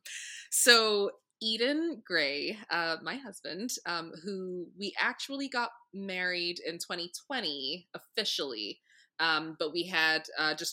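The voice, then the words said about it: Giggly, smiling voice. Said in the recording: “you can probably hear in my voice, I don't ever get to speak about Eden without laughing, without smiling ... just bit of giggles”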